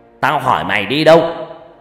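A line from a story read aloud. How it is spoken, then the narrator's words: Angry shout. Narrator (Vietnamese): Ông Long quát lên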